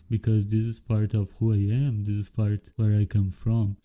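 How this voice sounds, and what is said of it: Brazilian-accented English. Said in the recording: “I have Brazilian accent”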